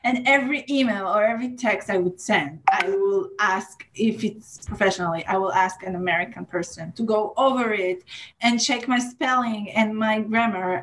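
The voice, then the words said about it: Non-native English accent. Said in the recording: “they don't understand my accent ... people remember me because of my accent”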